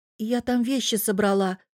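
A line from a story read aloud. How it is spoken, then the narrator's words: Timid reply. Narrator (Russian): робко отозвалась я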